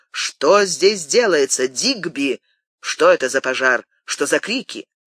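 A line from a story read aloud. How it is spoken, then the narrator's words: Resonant voice. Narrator (Russian): сказал звучным голосом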